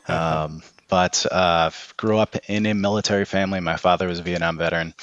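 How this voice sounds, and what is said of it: Boston accent. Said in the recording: “I'm originally from Boston, in case you can't tell from the accent.”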